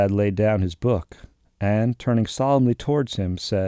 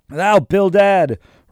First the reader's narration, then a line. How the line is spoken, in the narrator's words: roared Peleg